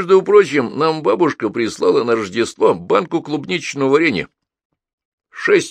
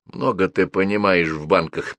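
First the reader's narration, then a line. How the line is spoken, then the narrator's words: Muttered. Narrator (Russian): пробормотал Петя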